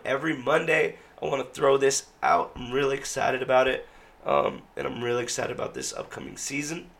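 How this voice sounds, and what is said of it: Rough, poor-sounding voice. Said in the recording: “my voice sounds so crummy”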